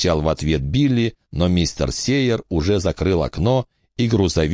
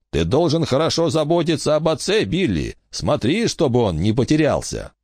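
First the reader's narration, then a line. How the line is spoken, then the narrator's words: Cheerful. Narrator (Russian): Сейер весело произнес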